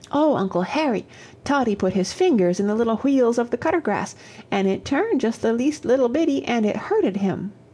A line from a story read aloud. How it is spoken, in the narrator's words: Both boys exclaiming